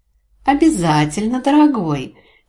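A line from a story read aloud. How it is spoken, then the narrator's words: Honeyed sing-song girl's voice. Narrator (Russian): медовым голоском пропела девушка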